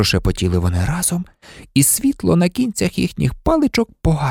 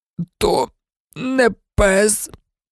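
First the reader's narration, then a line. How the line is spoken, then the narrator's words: Pained groan. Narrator (Ukrainian): простогнав Рон, скриплячи зубами від болю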